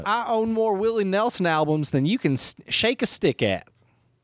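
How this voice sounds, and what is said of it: Put-on Texas accent. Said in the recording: “I will read this in a Texas accent.”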